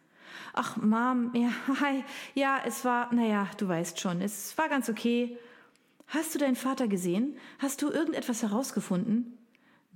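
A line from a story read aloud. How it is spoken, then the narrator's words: Sighing. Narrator (German): Jen seufzte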